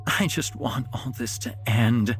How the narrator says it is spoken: Jonas whimpered

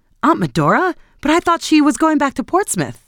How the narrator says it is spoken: she answered placidly

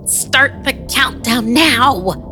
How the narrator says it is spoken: yelled

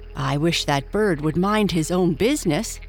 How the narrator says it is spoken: grumbled the larger firefly

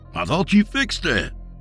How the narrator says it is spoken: Dak exclaimed worriedly

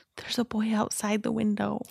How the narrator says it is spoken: Her response is almost a whisper

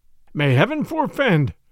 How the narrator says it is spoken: cried the bishop earnestly

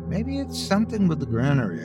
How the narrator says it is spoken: I mumbled

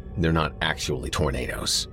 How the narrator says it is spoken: Jared muttered

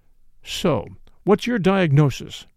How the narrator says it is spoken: I demanded coldly

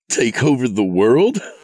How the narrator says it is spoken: He laughed at the absurdity of it

